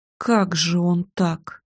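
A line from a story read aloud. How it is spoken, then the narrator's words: Mutter. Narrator (Russian): пробормотала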